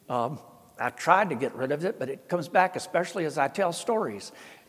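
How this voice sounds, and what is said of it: Thick Southern Appalachian accent. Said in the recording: “a poor white boy in the South with this accent ... Papa's accent was that thick ... My native dialect was a very strong version of Appalachian”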